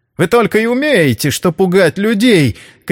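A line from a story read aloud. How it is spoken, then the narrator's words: Shout. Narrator (Russian): крикнула она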